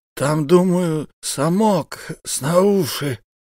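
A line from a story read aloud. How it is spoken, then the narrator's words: Muffled, hissing, garbled male voice. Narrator (Russian): Глухо, словно шипя и коверкая буквы, произнес мужчина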